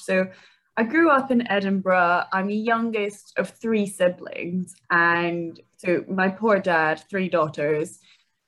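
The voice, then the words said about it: Scottish accent. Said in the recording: “people always think I've got quite a funny accent, and I'm like, no, it's just Scottish”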